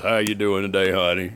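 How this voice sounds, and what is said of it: Imitates a deep male voice. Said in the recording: “had that real deep voice”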